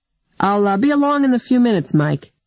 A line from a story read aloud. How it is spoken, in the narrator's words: Jurhir said cheerfully